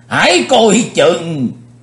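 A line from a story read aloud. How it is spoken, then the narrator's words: Old man crying out. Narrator (Vietnamese): lão Tây Nhạc Lăng Di Phong cũng phải bật kêu lên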